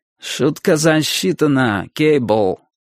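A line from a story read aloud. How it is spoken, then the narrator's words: Nasty drawling imitated voice. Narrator (Russian): отозвался я противным тягучим голосом Плата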